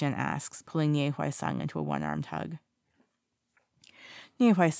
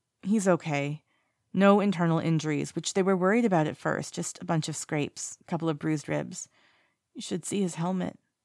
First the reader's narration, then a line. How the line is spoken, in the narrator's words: he says, his voice wobbling a little